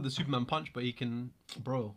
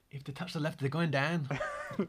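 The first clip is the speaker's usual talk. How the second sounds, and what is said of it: Bad put-on accent. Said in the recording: “That's the worst accent I've heard.”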